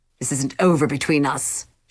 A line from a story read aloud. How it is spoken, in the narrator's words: hissed